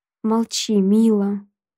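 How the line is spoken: Moaning. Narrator (Russian): Буквально выстонал он

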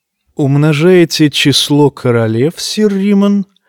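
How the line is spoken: Insinuating question. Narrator (Russian): вкрадчиво спросил его Джейми

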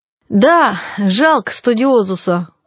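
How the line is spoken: Sighing. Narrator (Russian): вздохнул Стахович

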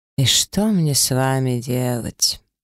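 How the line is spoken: Sighing man. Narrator (Russian): вздохнул мужчина

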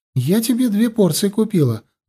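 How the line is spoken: Joyful. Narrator (Russian): радостно сообщила она

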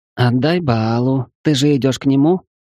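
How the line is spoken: Purring. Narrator (Russian): промурлыкала Гелла

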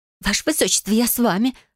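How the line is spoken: Frightened whisper. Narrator (Russian): шепнула бледная Хмелия

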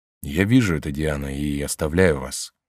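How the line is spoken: Sad. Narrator (Russian): печально сказал Габриэль

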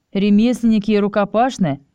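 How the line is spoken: Scoffing grunt. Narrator (Russian): хмыкнул Чес

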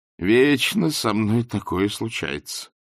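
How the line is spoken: Groaning. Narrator (Russian): простонал Ринсвинд

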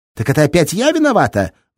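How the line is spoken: Shrieking. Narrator (Russian): взвизгнула Светка

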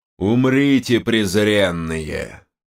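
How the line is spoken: Thundering voice. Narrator (Russian): Снова прогремел голос Рашиса

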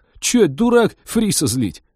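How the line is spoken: Skeptical snort. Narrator (Russian): Капитан скептически хмыкнул

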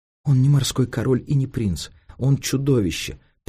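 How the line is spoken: Girl crying, exclaiming. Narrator (Russian): плача воскликнула девочка

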